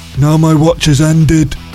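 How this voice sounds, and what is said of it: Imitates a TV character's voice. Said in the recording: “my impression of Jon Snow ... From Game of Thrones ... that sounds like Arnold Schwarzenegger”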